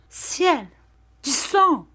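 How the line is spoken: Exclaiming. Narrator (French): s'écria Julietta

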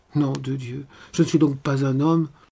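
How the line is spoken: Growling, holding back tears. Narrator (French): grogna-t-il en renfonçant ses larmes

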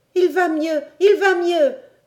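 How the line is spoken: Joyful cry. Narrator (French): s'écria Robert

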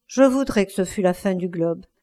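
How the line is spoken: Sighing. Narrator (French): dit Dorian avec un soupir

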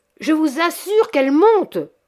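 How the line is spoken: Shouted. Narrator (French): cria M

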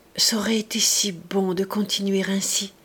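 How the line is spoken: Murmuring again. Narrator (French): Godelive murmura encore

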